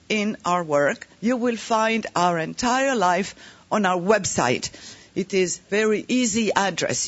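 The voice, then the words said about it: French accent. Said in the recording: “we are happy and proud of our Bulgarian accent and my French accent.”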